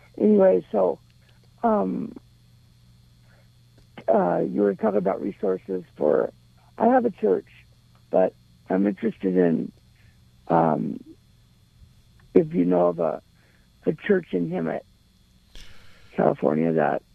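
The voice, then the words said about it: Raspy voice. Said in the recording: “this is my raspy voice because I'm in bed”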